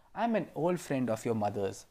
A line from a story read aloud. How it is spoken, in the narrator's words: said Wilbur